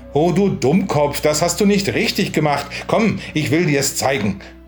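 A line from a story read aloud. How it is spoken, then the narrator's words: Called out. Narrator (German): rief er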